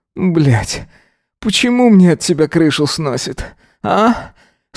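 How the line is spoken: Hoarse question. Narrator (Russian): спросил Эзра, хрипло

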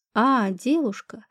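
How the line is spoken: Relieved sigh. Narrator (Russian): как мне показалось, с облегчением вздохнула

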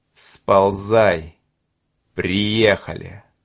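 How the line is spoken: Hiss. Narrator (Russian): Коротышка прошипел

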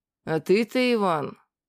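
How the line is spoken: Spiteful. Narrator (Russian): злобно сказал ему Всемил

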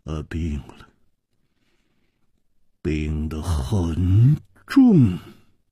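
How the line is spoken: Heavy sigh, gloomy. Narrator (Chinese): 左青侯沉重地叹息了一声，黯然说

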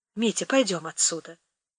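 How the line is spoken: Quiet. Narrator (Russian): сказала она тихо

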